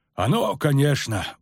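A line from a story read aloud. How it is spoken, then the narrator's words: Sigh. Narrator (Russian): вздохнул Золтан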